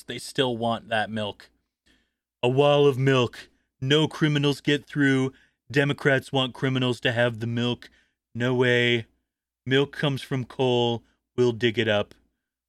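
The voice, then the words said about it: Imitates another person's voice. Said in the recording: “my Trump impersonation”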